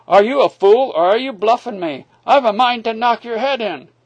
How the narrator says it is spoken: he cried

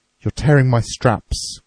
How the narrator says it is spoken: cried the officer

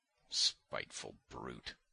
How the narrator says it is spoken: muttered Simonov

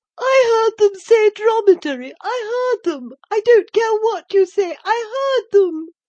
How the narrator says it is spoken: squealed the odious Dolores

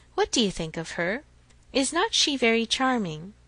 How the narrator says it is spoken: with a gentle sigh

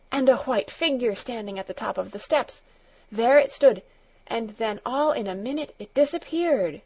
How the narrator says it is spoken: gasped John

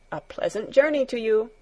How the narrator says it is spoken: Herr Sesemann called out once more

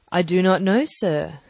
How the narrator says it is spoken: said I

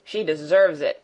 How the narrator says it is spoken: growled Peter

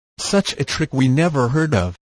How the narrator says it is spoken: replied August Nob

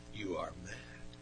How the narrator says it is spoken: was already shaking with rage as he said in a low voice

